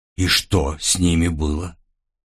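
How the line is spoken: Quiet fearful question. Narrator (Russian): тихо спросила Эрса, боясь в ответ услышать вполне простой и очевидный ответ

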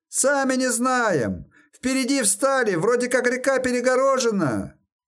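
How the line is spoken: Raiders shouting. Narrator (Russian): Сушкуи прокричали

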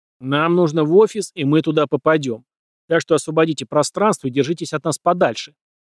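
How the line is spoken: Shouting from behind someone. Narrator (Russian): выкрикнул я из-за плеча своей молодой сексуальной подружки

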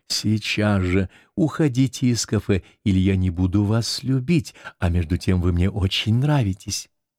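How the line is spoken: Repeated whisper. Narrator (Russian): все время повторяя ему шепотом

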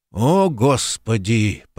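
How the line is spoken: Groaning. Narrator (Russian): простонал Куб

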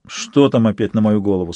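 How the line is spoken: Plain. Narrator (Russian): спросил Сварог

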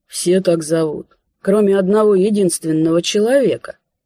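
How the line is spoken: Sly creaky voice. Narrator (Russian): хитро прищурившись, проскрипел

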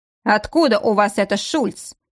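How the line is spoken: Stern. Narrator (Russian): строго проговорил офицер

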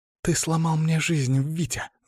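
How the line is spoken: Hissed. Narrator (Russian): зашипела она

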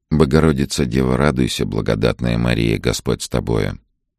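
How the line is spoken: Quiet repetition. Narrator (Russian): Вадим негромко повторял

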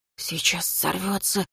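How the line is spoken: Whisper. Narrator (Russian): прошептал один из некромантов

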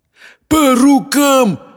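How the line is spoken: Demon shouting. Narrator (Russian): крикнул демон

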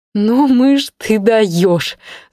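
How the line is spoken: Ringing laughter. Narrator (Russian): звонко расхохоталась Ленка

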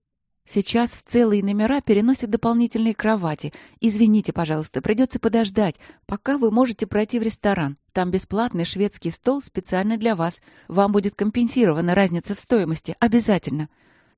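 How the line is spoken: Rapid repeated chatter. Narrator (Russian): тараторила Светлана раз за разом

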